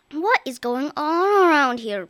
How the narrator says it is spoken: groaned the exhausted girl

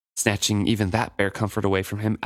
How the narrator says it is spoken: Etta said in a quiet whisper to Sorcor

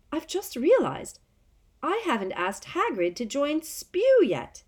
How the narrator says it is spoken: she said brightly

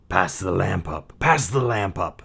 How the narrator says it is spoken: the sorcerer hissed

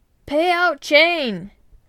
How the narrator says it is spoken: shouted the captain

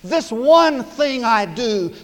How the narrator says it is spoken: said the apostle

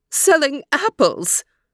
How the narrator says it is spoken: came a squeaky voice

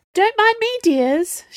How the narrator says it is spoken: she said sweetly

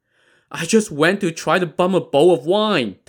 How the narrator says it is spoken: pleaded

